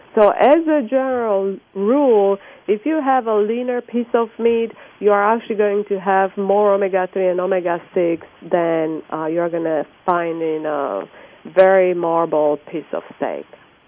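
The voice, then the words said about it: Romanian-accented English. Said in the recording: “I hear from your accent, you're from Europe ... Romania”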